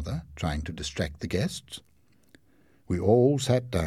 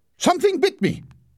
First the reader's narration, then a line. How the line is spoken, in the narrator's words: shouted two of the guests